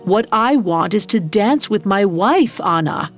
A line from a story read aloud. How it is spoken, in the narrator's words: His passions boiled over as he yelled